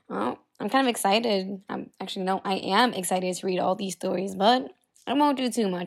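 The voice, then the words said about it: Deeper, raspy, husky sick voice. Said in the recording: “I recently got sick ... I lost my voice, and I'm still recovering, so my voice sounds a bit deeper and even sounds a bit raspier and more husky”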